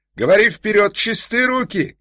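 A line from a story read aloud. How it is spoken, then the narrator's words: Shouting from afar. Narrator (Russian): кричал ему издали еще Ковалев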